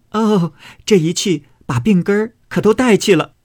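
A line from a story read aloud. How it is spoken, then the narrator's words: Laughing. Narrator (Chinese): 笑道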